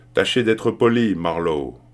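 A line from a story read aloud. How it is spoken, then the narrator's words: Growled. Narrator (French): grogna une voix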